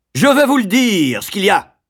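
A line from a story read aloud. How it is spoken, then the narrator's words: Yelling. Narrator (French): hurlait alors Corkers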